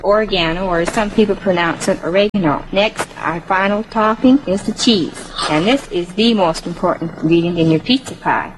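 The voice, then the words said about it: Minnesota-like Canadian accent. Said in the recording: “her accent, she's got to be from Manitoba because she sounds almost like Minnesota ... There's a little bit of Minnesota an accent there”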